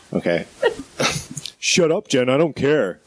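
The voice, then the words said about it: Imitates another person's voice. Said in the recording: “That was a good impression of my brother.”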